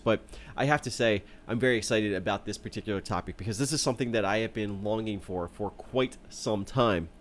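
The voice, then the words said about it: Congested voice from a cold. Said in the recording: “I'm battling a cold. I am still battling that cold. You can probably hear it in my voice,”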